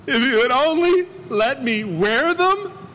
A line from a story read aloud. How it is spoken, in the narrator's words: cried